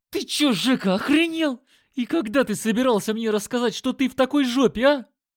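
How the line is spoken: Howling. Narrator (Russian): Взвыл он

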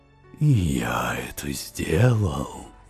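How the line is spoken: Quiet interjection. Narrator (Russian): тихо вставил я

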